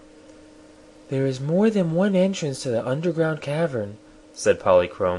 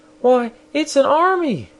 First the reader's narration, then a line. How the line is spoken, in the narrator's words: She exclaimed